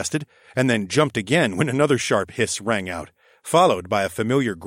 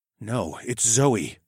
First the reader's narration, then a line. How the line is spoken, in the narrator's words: I breathed, as realization finally struck